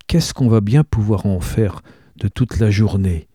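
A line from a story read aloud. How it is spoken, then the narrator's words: Soft question. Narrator (French): demande doucement Marceline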